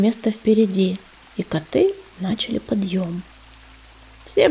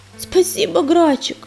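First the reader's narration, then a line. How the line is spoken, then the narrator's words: Hoarse, wheezing. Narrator (Russian): прохрипела она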